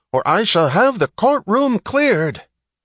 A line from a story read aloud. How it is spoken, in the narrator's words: one of the judges yelling